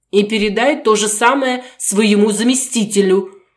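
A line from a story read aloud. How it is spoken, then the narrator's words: Emotional shout. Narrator (Russian): выкрикнул напоследок Сергей, уже не в силах держать эмоции под контролем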